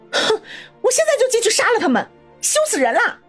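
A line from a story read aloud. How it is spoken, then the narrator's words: Angry snort. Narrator (Chinese): 何梅怒哼一声说道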